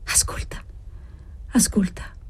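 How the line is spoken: Quiet intimate voice. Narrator (Italian): disse ella perché gli potesse parlare più piano

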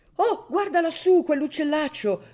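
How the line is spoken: Women shouting. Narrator (Italian): gridarono le donne

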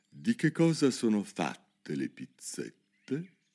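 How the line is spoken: Dejected king speaking. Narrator (Italian): disse il re avvilito

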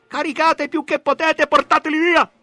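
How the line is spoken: Lieutenant shouting. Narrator (Italian): Un tenente gridava

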